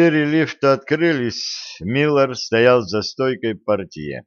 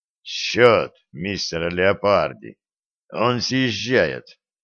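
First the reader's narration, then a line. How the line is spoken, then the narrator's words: Hoarse. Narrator (Russian): Стив … хрипло сказал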